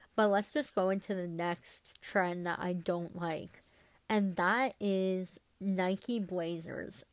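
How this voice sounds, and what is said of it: Stuffy, congested voice. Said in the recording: “my voice has been annoying this whole episode ... I'm still a bit sick. Like, my nose is still a bit stuffed up”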